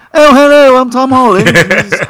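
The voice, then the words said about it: Tom Holland British accent impression. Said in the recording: “Why is he pretending to be British?”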